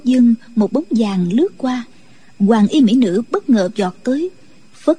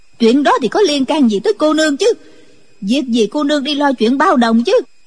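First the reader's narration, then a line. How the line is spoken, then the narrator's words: Angry. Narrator (Vietnamese): giận dữ nói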